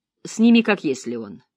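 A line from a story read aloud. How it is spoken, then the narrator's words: Grumbling tone. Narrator (Russian): Ворчливым тоном Клэр сказала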